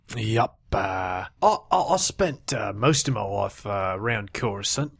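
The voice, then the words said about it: Distinct put-on alien accent. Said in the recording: “You have a pretty distinct accent. Is that a Coruscant accent? ... This is Mandalorian.”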